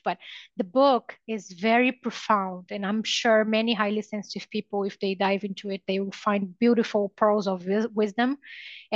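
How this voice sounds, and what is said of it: Non-native English accent. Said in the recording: “my accent, English is not my first language”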